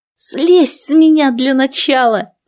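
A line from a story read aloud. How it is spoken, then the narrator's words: Hoarse, straining rasp. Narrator (Russian): прохрипела я, пытаясь отползти в сторону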